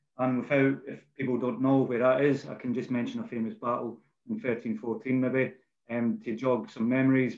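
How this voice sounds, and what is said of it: Scottish accent. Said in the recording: “as you can tell probably by my accent... born in a, a place called Bannockburn, um, which is in Scotland”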